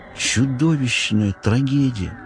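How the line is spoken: Choked muttering. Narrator (Russian): сдавленно пробормотал биолог экспедиции Эон Тау

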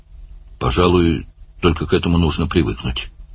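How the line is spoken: Mutter. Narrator (Russian): пробормотал Барни

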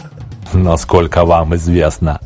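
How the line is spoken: Contemptuous snort. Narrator (Russian): презрительно фыркнул Бог

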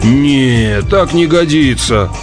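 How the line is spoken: Groaning. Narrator (Russian): простонал

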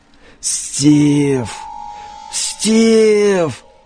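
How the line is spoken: Hoarse rasp. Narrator (Russian): Прохрипел Берт имя своего врага

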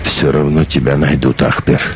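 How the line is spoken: Sighing. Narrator (Russian): вздохнул Вартанчик

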